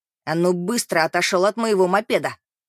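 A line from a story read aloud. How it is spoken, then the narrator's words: Angry bark. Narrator (Russian): Рявкнул Каати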